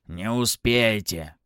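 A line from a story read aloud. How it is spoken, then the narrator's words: Snorted while passing. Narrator (Russian): хмыкнул Захарыч, проходя мимо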